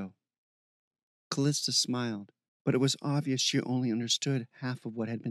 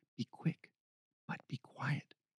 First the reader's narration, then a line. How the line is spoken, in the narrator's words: Heather whispered